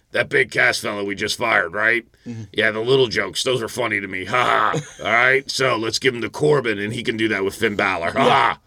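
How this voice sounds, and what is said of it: Imitates another person's voice. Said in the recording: “my McMahon imitation”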